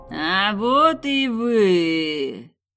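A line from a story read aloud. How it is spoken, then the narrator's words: Mocking drawl. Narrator (Russian): глумливо протянула ведьма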